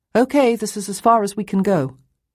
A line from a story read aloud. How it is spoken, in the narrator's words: called out